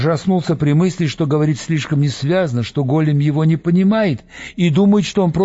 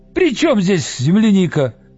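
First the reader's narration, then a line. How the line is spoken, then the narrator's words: Shout. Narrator (Russian): закричал Виктор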